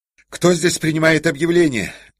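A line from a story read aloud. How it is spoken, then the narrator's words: Shouting. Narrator (Russian): закричал Ковалев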